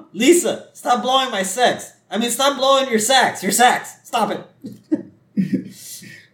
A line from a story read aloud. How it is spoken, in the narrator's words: Marge snaps back to reality, and she goes